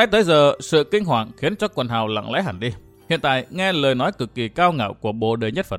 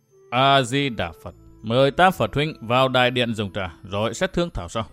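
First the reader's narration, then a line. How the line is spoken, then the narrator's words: Faint cool smile. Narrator (Vietnamese): Không Pháp Đại Sư cười nhạt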